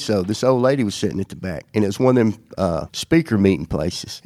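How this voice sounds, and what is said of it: Strong regional accent. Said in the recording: “you know how strong your accent is”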